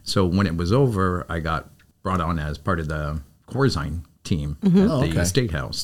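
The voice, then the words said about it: Chicago accent. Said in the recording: “I'm from Chicago ... I could see a Chicagoism in him ... The accent? ... The accent, the whole vibe.”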